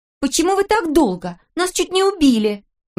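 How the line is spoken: Exclaimed. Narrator (Russian): воскликнула Ната

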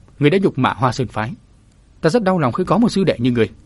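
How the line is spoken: Stern man. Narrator (Vietnamese): Đại hán nghiêm giọng

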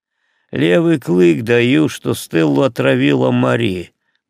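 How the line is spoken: Grumbling. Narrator (Russian): проворчал Фредерик

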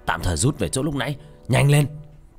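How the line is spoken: Shouted. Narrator (Vietnamese): hét lên

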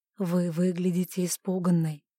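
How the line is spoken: Soft. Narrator (Russian): мягко сказал герцог

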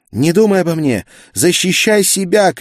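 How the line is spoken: Shouting. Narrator (Russian): крикнула Гертруда

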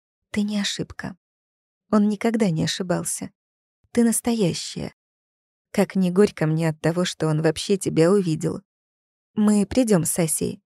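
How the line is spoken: Whisper in ear. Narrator (Russian): Она шепнула Валентине на ухо

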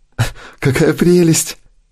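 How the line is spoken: Giggling. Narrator (Russian): хихикает Шерил

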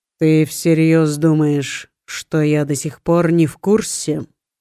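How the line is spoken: Gloomy tone. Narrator (Russian): мрачным тоном уточнил

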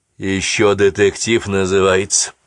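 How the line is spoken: Grumbling. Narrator (Russian): проворчал Эрик

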